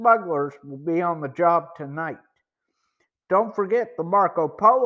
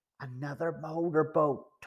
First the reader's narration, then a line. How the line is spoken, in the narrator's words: Tony whispered